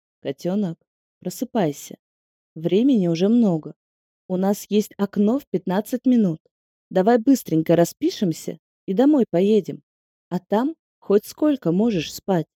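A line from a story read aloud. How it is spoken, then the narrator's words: Soft quiet request. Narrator (Russian): очень нежно, тихим голосом просил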